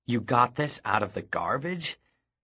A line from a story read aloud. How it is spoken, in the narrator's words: He flung his head back and cackled